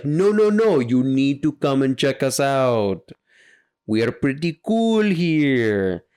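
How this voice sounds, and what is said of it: Puts on a foreign accent. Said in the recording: “clearly I'm the accent guy today”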